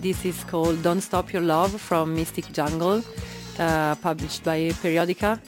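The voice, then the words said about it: Italian accent. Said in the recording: “my Italian accent? Are you laughing about my Italian accent?”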